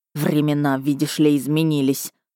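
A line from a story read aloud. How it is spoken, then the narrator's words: Furious near-growl. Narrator (Russian): Лорд Шармей даже едва не зарычал от ярости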